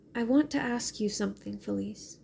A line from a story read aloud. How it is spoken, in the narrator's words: she said